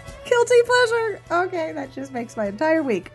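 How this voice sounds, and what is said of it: Usual voice. Nothing is said of it.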